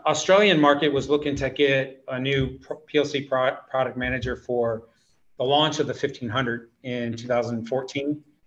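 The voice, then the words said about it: Slight Australian accent. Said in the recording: “I can hear my Australian accent a little bit and my dialect.”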